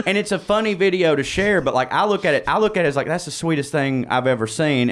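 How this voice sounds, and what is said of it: Southern American accent. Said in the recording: “everybody in the South has one. If you hear my accent”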